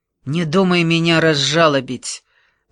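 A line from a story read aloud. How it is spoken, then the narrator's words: Contemptuous, through gritted teeth. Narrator (Russian): презрительно процедил Никола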